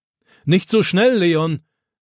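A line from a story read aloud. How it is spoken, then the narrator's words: Grandfather calling after. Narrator (German): ruft Opa ihm nach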